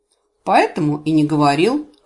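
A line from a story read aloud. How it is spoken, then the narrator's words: Wry snort. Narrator (Russian): хмыкнул полуэльф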